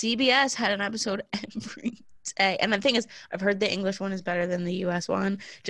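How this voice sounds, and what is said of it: Usual voice. Nothing is said of it.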